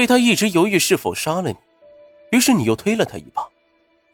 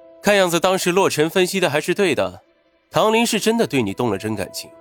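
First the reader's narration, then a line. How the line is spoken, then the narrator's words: Smiling. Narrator (Chinese): 云峰笑了笑，说道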